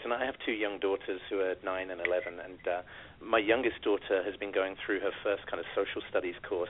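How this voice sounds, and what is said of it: British accent. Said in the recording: “you may have noticed from the accent, but I come from the UK”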